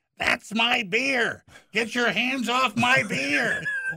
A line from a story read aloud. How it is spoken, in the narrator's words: Stepdad's mother flew up from the table yelling